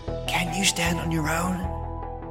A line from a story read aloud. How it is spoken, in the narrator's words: Mabel whispered